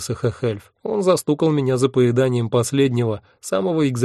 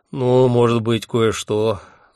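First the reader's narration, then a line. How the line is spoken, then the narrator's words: Sigh. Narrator (Russian): вздохнул он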